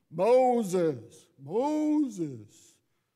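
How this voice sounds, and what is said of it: Charlton Heston impression. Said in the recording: “my Charlton Heston imitation there from the 50s”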